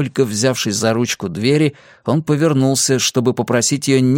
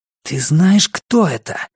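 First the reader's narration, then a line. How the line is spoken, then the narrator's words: Hissed. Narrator (Russian): прошипел Теодор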